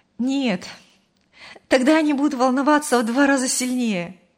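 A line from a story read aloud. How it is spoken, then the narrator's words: Laughing. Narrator (Russian): рассмеялась Мария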